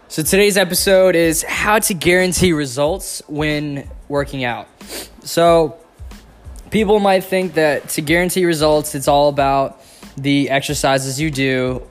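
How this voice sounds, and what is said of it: Slightly raspy sick voice. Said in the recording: “I'm a little sick, so if my voice is a little raspy or hard to understand”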